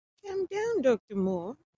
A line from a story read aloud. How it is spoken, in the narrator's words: Dick said in a much softened tone